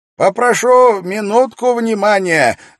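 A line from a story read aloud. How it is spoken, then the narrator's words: Loud interruption. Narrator (Russian): громко прервал раздумья собравшихся Кроули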